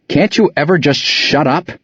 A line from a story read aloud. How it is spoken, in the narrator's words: Mario yells